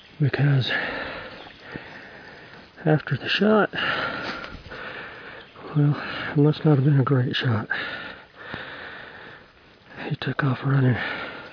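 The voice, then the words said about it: Out of breath, panting speech. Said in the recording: “As you can tell, I'm a little out of breath”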